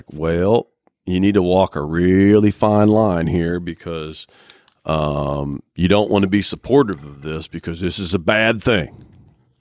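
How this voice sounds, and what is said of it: Put-on country accent. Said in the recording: “Why'd you do the country accent?”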